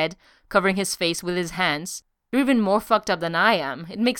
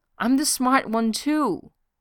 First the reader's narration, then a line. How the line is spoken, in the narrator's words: she said desperately